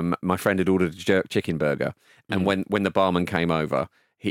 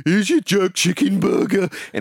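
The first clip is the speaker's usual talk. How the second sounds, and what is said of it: Poor fake Birmingham accent. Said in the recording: “in a sort of faux Birmingham voice ... It wasn't even as good as the monstrosity I just did”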